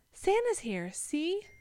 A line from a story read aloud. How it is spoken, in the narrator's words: squealed